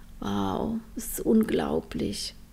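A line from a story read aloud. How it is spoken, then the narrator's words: Murmur. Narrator (German): murmelte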